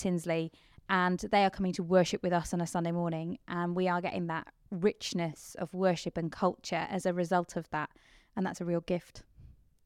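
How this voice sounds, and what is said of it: Mixed English accent with Kent traces. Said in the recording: “my dodgy accent, which moves around all over the place because I've moved around ... There is a lot of traces in that accent ... there is a lot going on with this accent ... There's a lot of Kent in there.”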